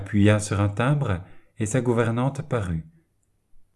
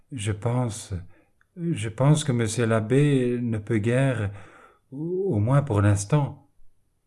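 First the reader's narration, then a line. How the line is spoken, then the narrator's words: Stammering. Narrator (French): bégaya-t-elle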